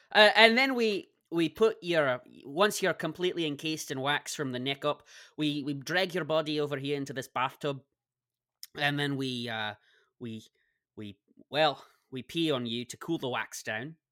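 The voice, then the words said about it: Speaks in a put-on accent. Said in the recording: “you have to do it in another accent.”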